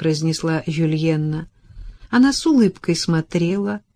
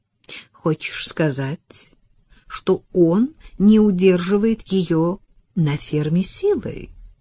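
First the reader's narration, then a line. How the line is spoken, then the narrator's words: Disappointed drawl. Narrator (Russian): Разочарованно протянула она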